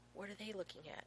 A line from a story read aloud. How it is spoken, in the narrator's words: He whispers to Rodney